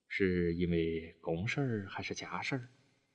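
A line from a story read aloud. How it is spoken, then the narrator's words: Sighing. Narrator (Chinese): 德武忍不住叹了口气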